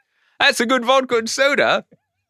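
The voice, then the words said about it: Cockney accent imitating Kate Middleton. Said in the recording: “I don't know why she's Cockney now because I didn't have time to really prep that accent work”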